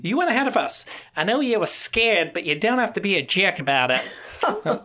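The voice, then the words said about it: Attempted Australian accent. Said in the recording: “Sorry, Australians. That was my best effort here. ... it's the rebuke sounds a lot cuter when it's in that Australian tone”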